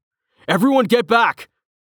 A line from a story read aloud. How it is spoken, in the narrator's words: Rain shouted